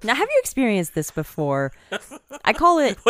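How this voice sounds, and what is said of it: Infomercial-style pitch delivery. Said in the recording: “You sound like an infomercial right now.”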